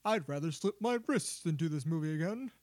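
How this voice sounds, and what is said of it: Imitates another person's voice. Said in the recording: “And he sounded just like that. That was my great Daniel Craig impression.”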